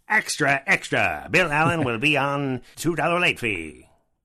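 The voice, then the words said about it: Old-timey newsie character voice. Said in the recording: “like a newsie that is aged out from the job”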